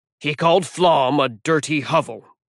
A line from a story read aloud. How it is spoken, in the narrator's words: Halfborn grumbled